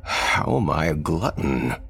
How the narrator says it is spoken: Thomas asked, chuckling

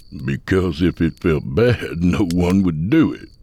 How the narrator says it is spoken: Sut said with a laugh

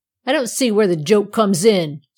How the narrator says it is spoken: snapped Tom, who did not at all like the way the Andirons and the poker were behaving

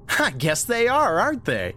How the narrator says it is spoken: said, and uttered a quick bark of laughter

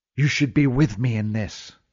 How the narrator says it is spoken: hissed Neve

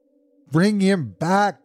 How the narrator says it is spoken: cried the old woman

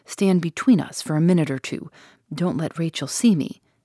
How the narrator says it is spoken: whispered

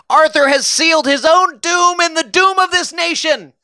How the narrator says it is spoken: Guiteau shouted

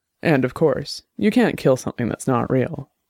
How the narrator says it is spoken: She added coldly

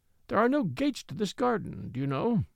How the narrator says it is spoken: he said meekly

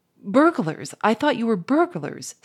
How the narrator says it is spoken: stammered Firmin

